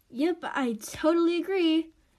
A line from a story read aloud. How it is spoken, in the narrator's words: Addie laughs